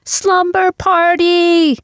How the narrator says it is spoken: Which is when we both shouted

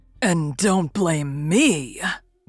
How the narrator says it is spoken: growled the convict

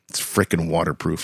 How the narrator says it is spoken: I growled

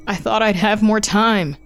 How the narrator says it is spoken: he cried out in the church, although Grandmama had been six days shy of eighty

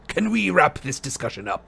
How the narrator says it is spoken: growled Moody

